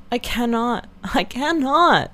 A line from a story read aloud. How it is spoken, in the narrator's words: cried Marianne